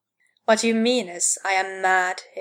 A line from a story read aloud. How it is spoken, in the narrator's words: he said